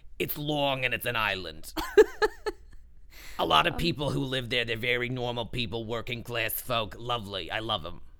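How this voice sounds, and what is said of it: Put-on New York accent. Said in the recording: “my lovely New York accent ... I'm from Long Island originally”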